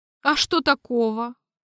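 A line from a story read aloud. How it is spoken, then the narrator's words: Snort. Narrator (Russian): хмыкнул я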